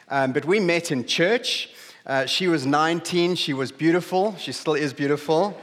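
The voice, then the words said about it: South African English accent. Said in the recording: “We grew up in a small town on the southeast coast of South Africa. You might have noticed from my accent.”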